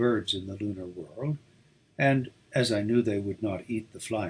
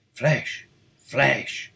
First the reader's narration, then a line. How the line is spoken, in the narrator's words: they growled